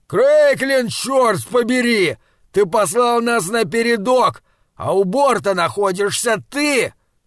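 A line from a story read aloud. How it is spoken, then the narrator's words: Shouting over helmet radio. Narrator (Russian): прокричал Лам в микрофон своего шлема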